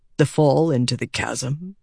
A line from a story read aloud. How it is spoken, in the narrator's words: he asked softly